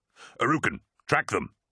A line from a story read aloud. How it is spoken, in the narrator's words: snapped Ternit